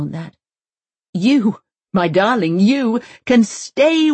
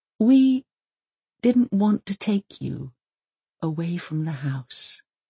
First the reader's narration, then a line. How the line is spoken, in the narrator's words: he whispers